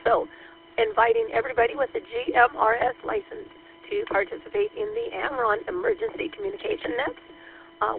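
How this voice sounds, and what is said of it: Cracky, hoarse voice. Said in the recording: “my voice is pretty cracky today”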